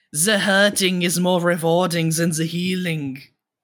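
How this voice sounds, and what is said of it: Thick German accent imitation. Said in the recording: “He has a super fucking thick German accent”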